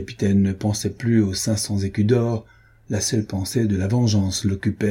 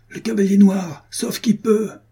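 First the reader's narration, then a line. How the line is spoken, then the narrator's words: Shouted. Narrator (French): cria-t-il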